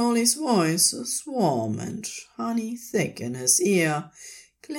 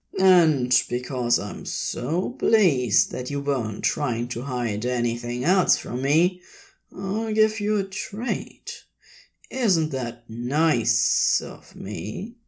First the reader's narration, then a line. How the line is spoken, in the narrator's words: Crowley purred